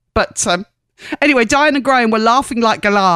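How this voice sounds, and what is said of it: Usual voice. Nothing is said of it.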